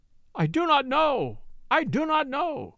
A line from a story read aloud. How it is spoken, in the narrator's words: cried Werper